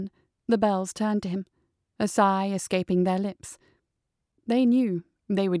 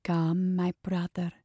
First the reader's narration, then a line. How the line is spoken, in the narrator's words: said, her voice so low that it was barely a whisper